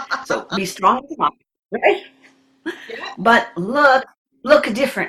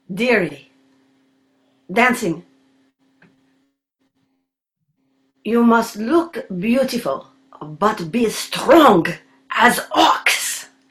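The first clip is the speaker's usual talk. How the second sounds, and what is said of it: Imitated foreign-accented teacher voice. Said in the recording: “see how my accent is today”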